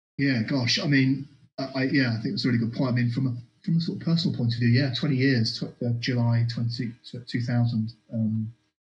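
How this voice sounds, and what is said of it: London English accent. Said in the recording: “I arrived as a more fresh-faced Londoner. Still got still got my accent, of course.”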